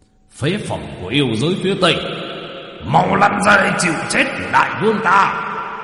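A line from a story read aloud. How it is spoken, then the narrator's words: Thunderous demon king roar. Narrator (Vietnamese): Yêu vương Quỷ Ngưu đứng ở trên cao mà quát lên ầm ầm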